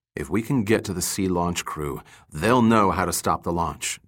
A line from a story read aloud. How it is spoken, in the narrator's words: Dirk said in a low voice